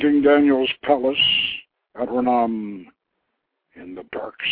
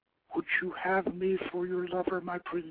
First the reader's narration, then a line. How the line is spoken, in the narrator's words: she whispered